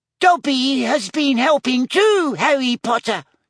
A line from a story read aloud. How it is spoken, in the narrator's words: he squeaked